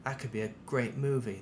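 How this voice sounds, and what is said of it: Poor put-on British accent. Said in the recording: “That's my terrible British accent”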